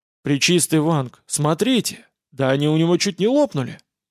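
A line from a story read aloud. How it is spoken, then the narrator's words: Sudden emotional exclamation. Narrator (Russian): Неожиданно эмоционально воскликнул возница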